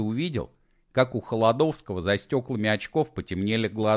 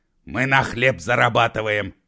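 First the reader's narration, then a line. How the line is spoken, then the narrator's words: Barked. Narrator (Russian): рявкнул Егор Алексеевич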